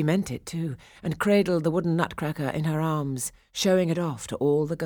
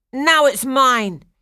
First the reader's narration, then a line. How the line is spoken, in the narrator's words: he shouted